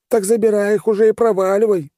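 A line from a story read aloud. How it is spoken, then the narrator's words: Merchant yelling. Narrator (Russian): заорал торговец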